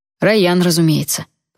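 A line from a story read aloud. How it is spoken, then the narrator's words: Grumbling, smiling. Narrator (Russian): проворчал он, но улыбнулся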